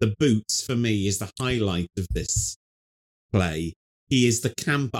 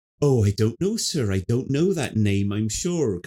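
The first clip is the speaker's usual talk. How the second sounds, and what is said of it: Camp, arch rural yokel accent. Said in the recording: “so arch and like Kenneth Williams ... gossipy, saucy ... a Norfolk accent ... the kind of yokely accent they do”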